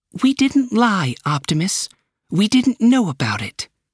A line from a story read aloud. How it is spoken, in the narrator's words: she said calmly